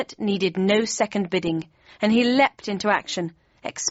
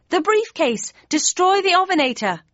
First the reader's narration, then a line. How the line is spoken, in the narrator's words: I yelled